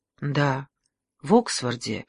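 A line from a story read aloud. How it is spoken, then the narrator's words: Barely audible female whisper. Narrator (Russian): еле слышно прошептала она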